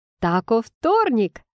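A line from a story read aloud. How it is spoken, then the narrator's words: Exclaimed. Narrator (Russian): воскликнула Уитни, победно вскидывая кулаки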